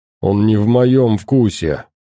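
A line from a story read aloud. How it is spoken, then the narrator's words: Displeased grumble. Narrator (Russian): недовольно проворчал Леший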